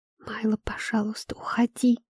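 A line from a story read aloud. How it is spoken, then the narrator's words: Trembling whisper. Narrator (Russian): прошептала я, и мой голос дрогнул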